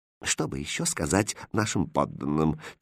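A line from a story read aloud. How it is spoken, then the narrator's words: Quiet question. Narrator (Russian): тихо спросил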